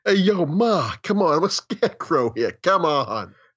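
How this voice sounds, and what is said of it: Put-on Brooklyn accent, character voice. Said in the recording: “The Scarecrow kid had a Brooklyn accent”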